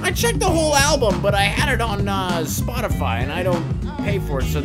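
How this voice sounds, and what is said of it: Imitates another person's voice. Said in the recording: “That's a very good Narwhal impersonation”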